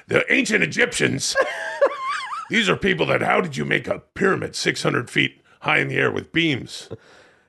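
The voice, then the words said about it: Imitates another person's voice. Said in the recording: “your Alex Jones impersonation”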